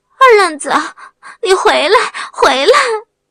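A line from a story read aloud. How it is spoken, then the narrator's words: Shriek. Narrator (Chinese): 他的尖叫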